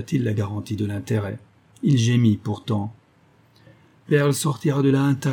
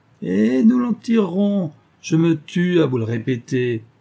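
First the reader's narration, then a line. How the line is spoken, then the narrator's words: Sneering detective. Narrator (French): ricana le détective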